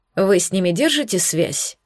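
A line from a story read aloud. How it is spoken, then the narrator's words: Plain. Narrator (Russian): спросил Хром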